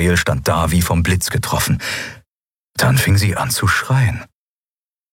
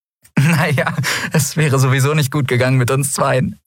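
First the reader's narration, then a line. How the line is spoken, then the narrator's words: Laughing. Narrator (German): sagte sie lachend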